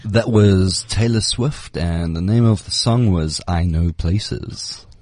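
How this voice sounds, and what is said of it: Put-on sexy voice. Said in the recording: “Is this your sexy voice? ... It's my trying to get my sexy voice on.”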